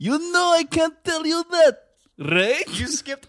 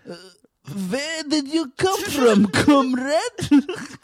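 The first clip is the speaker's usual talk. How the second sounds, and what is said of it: Put-on Russian accent. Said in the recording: “I'm just gonna do an accent. ... it's a Russian person.”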